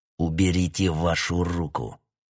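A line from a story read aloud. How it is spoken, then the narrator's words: King speaking through gritted teeth. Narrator (Russian): процедил король сквозь зубы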